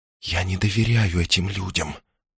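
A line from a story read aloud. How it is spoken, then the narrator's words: Whisper. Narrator (Russian): прошептала она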